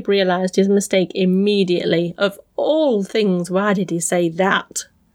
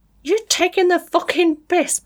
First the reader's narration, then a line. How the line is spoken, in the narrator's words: Patrice screamed